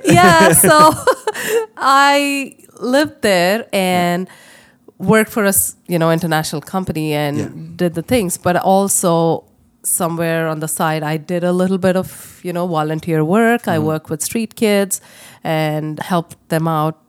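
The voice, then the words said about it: Indian English accent. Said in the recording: “this whole time you've had a beautiful accent”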